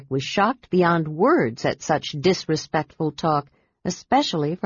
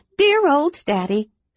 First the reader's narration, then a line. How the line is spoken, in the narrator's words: said Lilith, laughing